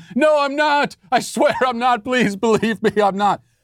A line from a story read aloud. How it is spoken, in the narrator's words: break down in tears like Dax here, begging them, screaming